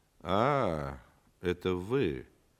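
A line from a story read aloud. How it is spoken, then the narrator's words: Disappointed drawl. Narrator (Russian): разочарованно протянул антрепренер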